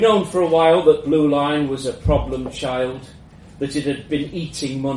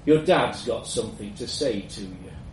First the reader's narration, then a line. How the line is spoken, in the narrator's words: muttered